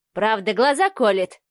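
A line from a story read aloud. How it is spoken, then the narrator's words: Wry snort. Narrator (Russian): хмыкнул Алексей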